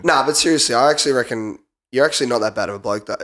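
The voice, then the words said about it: Sick, flu-affected voice. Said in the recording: “his voice... a flu type thing... you sounded like that... I'm getting sick... It's not a good podcast voice”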